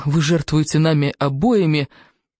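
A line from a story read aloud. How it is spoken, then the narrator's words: Groaned. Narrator (Russian): простонал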